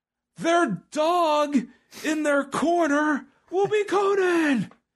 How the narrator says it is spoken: Tony Schiavone to scream

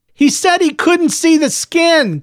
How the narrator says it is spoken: Clovis said loudly, as if Miss Gardner were hard of hearing

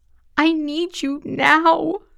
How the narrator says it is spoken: I sobbed

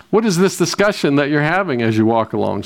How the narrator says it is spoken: said Jesus

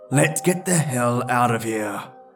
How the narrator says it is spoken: I growl

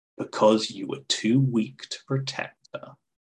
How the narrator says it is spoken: Leaning close, he hissed

